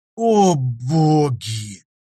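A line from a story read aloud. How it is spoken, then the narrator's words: Groaning. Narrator (Russian): простонал Лоик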